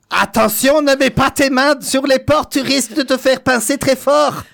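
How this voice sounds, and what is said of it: Put-on German-sounding accent, character voice. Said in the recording (French): “un accent allemand ... Ça sonne belge un peu.”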